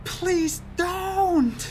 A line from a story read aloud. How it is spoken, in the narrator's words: I begged, screaming